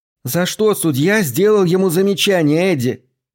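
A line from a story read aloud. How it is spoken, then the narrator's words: Nagging shout over crowd. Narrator (Russian): ее назойливый голос в реве толпы, кричала ему прямо в ухо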